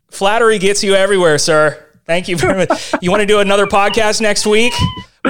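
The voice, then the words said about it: Rich, polished radio-style voice. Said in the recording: “you have got a fantastic radio voice”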